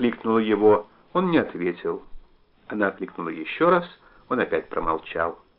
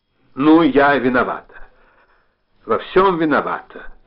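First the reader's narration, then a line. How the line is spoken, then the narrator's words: Irritated. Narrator (Russian): раздраженно сказала она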